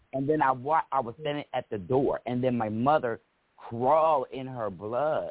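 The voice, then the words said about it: Choked-up, tearful voice. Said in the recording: “I'm getting choked up. I'm sorry, y'all.”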